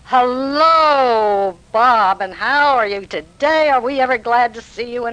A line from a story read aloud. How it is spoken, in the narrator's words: Bill finally heard us out there and came out and roared